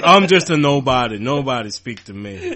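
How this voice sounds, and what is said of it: Put-on non-British accent. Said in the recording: “I don't know why I got this accent. I'm British. I'm from London.”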